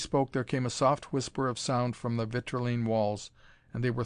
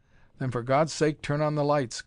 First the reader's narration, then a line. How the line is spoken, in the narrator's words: cried Carnes